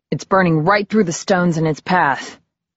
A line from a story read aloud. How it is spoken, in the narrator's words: said Eddie grimly